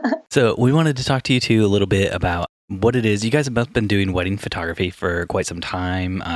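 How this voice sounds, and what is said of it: Usual voice. Nothing is said of it.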